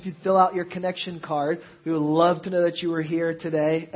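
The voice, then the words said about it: Raspy, rattling sick voice. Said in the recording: “I was sick on Friday and these are the leftovers. So you get to listen to my raspy rattling on today.”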